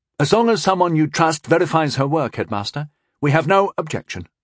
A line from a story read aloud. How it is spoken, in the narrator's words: Rondell said quickly